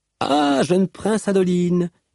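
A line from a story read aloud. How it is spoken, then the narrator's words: Exclaimed. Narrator (French): s'exclama Malice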